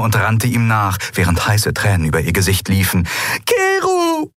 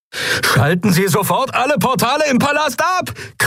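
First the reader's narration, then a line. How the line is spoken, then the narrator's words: Shrieked over sirens. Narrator (German): kreischte Galet über die Sirenen hinweg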